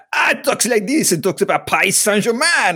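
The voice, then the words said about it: Exaggerated put-on French accent. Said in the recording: “it sounds like me doing a French accent”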